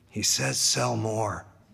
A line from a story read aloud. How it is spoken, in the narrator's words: Zame's parrot whispers to him